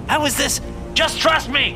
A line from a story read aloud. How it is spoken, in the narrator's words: shouted